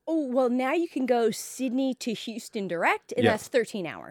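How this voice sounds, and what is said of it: Noticeable foreign accent. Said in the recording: “you're from overseas originally, as everyone can tell by your accent.”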